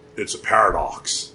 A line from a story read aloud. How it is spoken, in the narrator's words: he rumbled